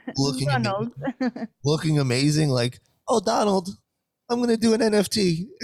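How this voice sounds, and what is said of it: Cute accented impression of Trump's wife. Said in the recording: “in her cute little accent”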